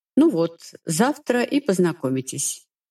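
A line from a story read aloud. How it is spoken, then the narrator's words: Calm, shrugging. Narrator (Russian): спокойно пожимает плечами император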